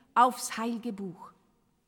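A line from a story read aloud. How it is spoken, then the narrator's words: Stern command. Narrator (German): herrschte Enoch streng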